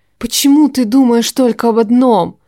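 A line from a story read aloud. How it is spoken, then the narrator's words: Hissing. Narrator (Russian): зашипела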